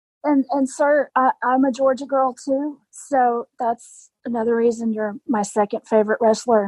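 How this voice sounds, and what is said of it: Rough, unwell-sounding voice. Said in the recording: “I'm recovering from COVID, so please forgive my voice and if I cough.”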